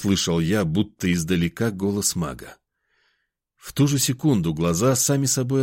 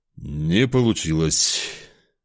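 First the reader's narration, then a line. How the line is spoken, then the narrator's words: Dejected, sighing. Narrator (Russian): Семен Семенович тяжело вздохнул и упавшим голосом сказал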